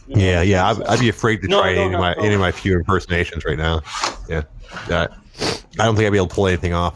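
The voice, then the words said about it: Congested, rough-throated voice. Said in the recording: “I'm so stuffed up right now. My throat's so cashed out.”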